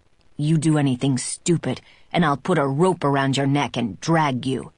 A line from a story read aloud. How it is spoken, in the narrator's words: he snarls